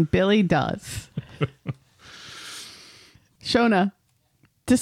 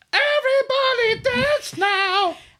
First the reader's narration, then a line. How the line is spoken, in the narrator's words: screams